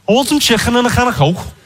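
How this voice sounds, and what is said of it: Put-on Scouse accent. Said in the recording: “This is the phrase I use to do the Scouse accent.”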